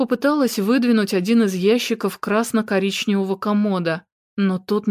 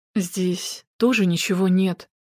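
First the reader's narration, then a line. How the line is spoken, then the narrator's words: Quiet. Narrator (Russian): произнес он тихо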